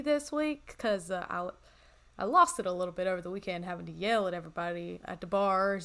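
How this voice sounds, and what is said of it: Slightly raspy voice. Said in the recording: “My voice has been a little raspy”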